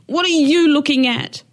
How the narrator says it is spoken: screamed

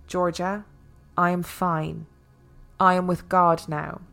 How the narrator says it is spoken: Yaya spoke to her calmly, saying

